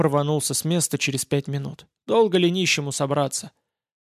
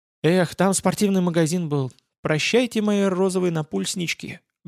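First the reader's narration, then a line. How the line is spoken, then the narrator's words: Sad. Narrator (Russian): грустно молвила Аня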